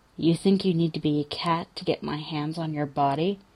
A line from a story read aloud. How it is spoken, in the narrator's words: Cougar leans in even closer, and his lips are almost brushing Jensen's ear when he says, softly